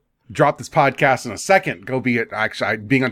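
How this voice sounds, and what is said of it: Usual voice. Nothing is said of it.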